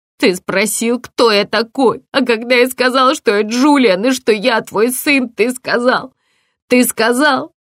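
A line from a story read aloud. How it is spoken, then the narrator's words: Breaking into sobs. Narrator (Russian): Он разрыдался и не мог произнести больше ни слова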